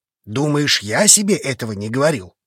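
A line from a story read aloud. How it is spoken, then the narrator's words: Growl. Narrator (Russian): рыкнул на друга Рун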